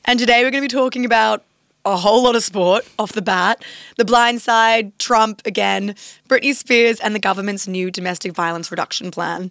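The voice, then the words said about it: Raspy, rough sick-sounding voice. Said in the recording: “my voice sounds terrible. I was hoping it'd be like sexy raspy today, but I think it is still old man. ... I've been a little sick this week.”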